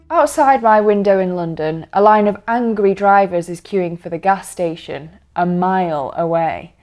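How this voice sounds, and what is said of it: British accent. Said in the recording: “if only for the change of accent”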